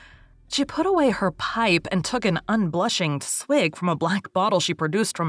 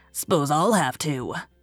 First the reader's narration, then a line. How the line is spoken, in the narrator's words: grunted Mrs